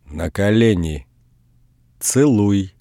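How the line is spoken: Stern. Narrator (Russian): Строго сказала она

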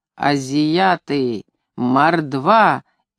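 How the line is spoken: Head cook's booming voice. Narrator (Russian): изредка гулким голосом произносит старший повар

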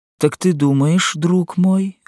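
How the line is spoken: Timid question. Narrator (Russian): робко спросила Женевьева

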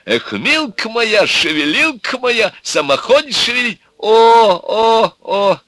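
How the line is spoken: Moaning. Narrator (Russian): застонали молодые

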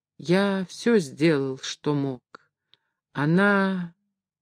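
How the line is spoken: Quiet. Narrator (Russian): Карл Иванович тихо произнес

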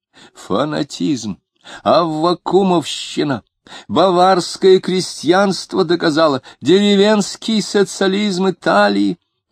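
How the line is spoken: Shrill incoherent shouting. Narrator (Russian): Он взвизгивал и точно читал заголовки конспекта, бессвязно выкрикивая их

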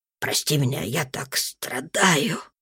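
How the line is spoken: Tearful mumble. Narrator (Russian): пробормотал он и заплакал

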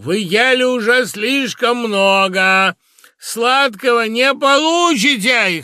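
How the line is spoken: Shout. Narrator (Russian): Гантран крикнул

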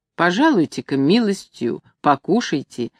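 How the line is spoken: Asked gently. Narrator (Russian): ласково просил он

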